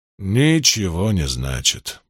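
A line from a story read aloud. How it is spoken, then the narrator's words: Sad summing up. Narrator (Russian): подытожил Ранд, печально кивая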